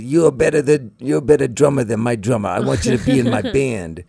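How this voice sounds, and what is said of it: Put-on New York accent. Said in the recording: “in his New York accent”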